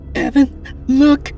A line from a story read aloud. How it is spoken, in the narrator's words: Katrina cried